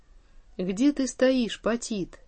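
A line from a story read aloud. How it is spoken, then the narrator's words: Menacing question. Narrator (Russian): Царь грозно вопросил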